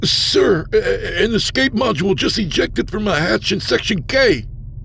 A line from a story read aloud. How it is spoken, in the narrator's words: Aldo sputtered